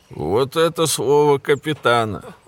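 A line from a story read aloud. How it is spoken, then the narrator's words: Roaring laughter. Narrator (Russian): захохотал Барни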